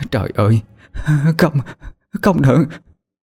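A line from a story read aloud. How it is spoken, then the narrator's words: Stammering anguished cry. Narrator (Vietnamese): Bà miệng lắp bắp mà kêu lên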